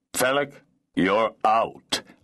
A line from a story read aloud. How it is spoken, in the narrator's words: Lord Geddenays said in a cold, harsh voice